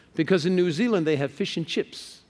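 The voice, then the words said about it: Mock New Zealand accent. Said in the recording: “picking out accents ... I can tell if you're from Australia or New Zealand”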